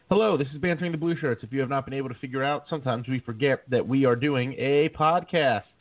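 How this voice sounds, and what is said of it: Deep voice, slightly sore throat. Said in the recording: “my throat is a little sore from last night, and this deep, sexy voice, I think, works very well for radio”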